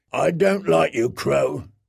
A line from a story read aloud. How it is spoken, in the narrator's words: he growled